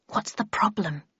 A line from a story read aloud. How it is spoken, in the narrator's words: I whispered